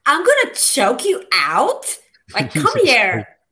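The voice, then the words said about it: Valley Girl voice. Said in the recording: “a better Valley Girl impersonation ... There you go. That was good.”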